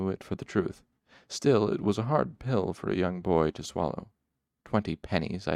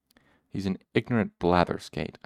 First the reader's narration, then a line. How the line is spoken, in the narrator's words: I said bitterly